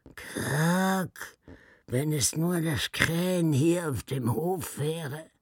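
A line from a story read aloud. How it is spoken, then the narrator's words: Thin, sickly lament. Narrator (German): klagte er mit einer dünnen Stimme wie ein krankes Huhn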